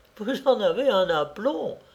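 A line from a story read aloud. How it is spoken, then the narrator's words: Exclaiming. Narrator (French): s'écrie Mariette Soubert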